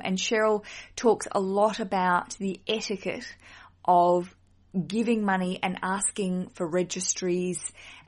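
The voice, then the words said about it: Australian accent. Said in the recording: “my accent is from Australia”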